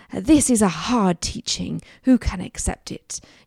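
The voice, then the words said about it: Posh English accent. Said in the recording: “you kind of hear it in a particularly posh English accent”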